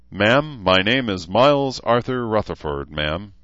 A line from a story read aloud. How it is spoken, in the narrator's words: barked